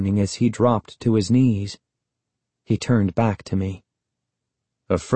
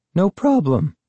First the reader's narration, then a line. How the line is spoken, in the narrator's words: I said, but my voice cracked